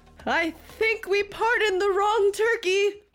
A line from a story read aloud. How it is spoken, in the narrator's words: he screamed